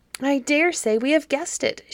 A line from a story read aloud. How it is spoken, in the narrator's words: she exclaimed, jumping up